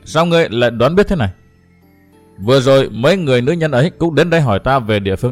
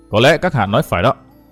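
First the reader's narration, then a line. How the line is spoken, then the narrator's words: Cold. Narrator (Vietnamese): Văn Thiên Hào lạnh lùng nói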